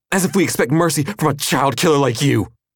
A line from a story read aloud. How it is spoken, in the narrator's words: the boy snarled